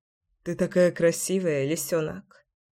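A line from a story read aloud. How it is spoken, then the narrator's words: Tender mutter. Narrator (Russian): пробормотал я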